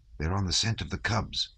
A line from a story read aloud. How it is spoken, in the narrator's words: he whispered